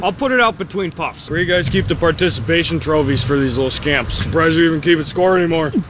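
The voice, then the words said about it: Loud sports-uncle character voice. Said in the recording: “impersonates that, of course, that one uncle at every little league or sporting event”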